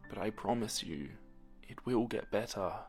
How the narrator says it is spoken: she said softly

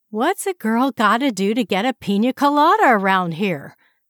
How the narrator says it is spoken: Valerie yelled from behind him

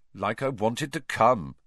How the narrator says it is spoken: said Harry coldly

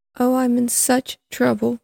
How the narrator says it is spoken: she cried

